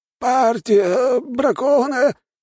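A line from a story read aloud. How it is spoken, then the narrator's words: Hoarse declaration. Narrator (Russian): хрипя заявил тот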